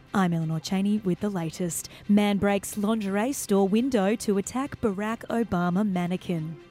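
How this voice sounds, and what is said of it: Newsreader voice. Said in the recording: “should I put my news voice on?”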